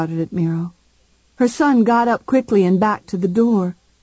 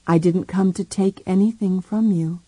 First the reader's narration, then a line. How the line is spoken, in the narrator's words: said quietly